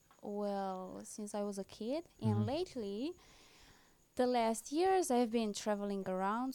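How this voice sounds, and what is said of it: Slight Romanian accent. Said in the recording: “I sense a little bit of an accent on you ... I'm from Romania”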